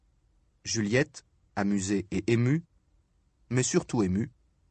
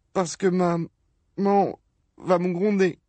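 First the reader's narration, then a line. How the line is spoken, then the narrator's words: Sobbing. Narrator (French): sanglota-t-il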